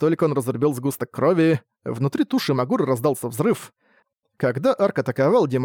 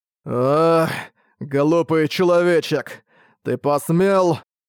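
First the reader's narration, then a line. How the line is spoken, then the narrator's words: Pained roar. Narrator (Russian): Получив немалый урон, Магура взревел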